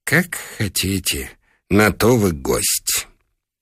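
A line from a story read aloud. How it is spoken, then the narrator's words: Sighing whisper. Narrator (Russian): Хозяин вздохнул и прошептал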